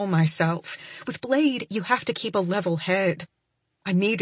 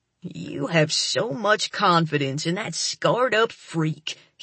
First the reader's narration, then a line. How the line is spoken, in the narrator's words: he sneers